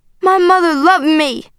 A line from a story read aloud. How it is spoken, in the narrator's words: I cried